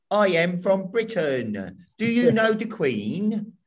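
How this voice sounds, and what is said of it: Exaggerated fake British accent. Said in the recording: “She kept occasionally slipping into a British accent ... she'd suddenly go a bit like ... That's how they think we sound.”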